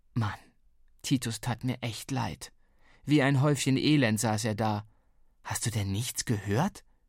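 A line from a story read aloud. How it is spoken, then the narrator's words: Plain question. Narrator (German): fragte ich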